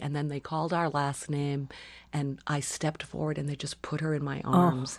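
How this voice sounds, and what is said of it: Tearful, crying voice. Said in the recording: “I'm crying kind of like I am right now. ... I get teary still.”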